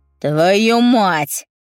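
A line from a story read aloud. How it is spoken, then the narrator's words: Growling in pain. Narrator (Russian): Он зарычал от боли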